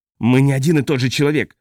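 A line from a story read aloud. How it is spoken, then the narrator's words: Roaring. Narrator (Russian): взревел Балин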